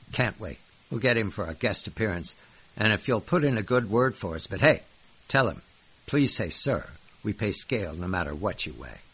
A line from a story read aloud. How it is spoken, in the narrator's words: Jay Leno chuckled professionally and said